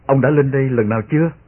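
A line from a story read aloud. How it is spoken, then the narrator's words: Smiling. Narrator (Vietnamese): tôi mỉm cười nhìn y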